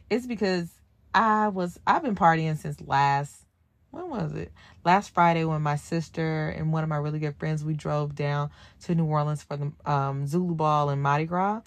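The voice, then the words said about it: Slightly hoarse voice. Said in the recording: “if I sound a little bit hoarse,”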